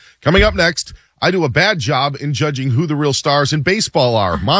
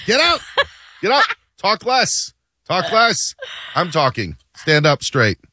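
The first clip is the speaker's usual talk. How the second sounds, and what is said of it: Bad impression of a TV judge. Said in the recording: “doing a bad Judge Judy impression.”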